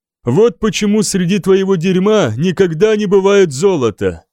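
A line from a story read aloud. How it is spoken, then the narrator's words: Exclamation. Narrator (Russian): воскликнул Биокка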